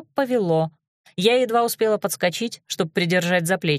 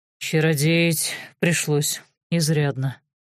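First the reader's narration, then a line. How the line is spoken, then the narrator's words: Confessed in low voice. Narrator (Russian): признался он вполголоса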